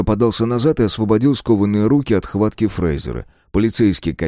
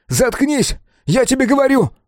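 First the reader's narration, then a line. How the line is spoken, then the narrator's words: Shout. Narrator (Russian): выкрикнул Том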